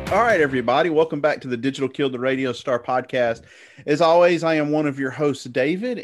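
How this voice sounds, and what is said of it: American Southern accent. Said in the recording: “you can tell by my accent, I live in the South”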